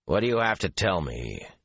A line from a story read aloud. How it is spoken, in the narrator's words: he said, more roughly than he intended